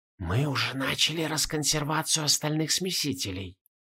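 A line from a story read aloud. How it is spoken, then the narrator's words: Old men whispering. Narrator (Russian): шепот старцев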